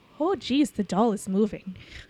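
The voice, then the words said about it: Put-on Minnesota Fargo accent. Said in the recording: “a hardcore Fargo accent”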